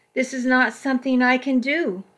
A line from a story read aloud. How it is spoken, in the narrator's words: I cried, tears streaming down my face